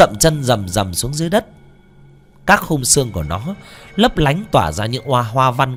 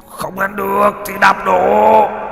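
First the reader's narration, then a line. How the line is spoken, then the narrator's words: Monstrous roar. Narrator (Vietnamese): Đại yêu cốt gầm lên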